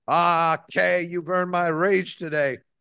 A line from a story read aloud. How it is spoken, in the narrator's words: the king cried